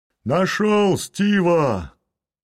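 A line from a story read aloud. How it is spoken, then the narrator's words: Shout. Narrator (Russian): крикнул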